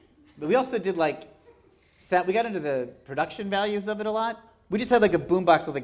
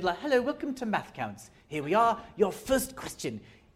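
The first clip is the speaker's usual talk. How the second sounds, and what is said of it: Put-on British accent. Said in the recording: “we spoke in British accents because that seemed funnier ... But you did it in a British accent.”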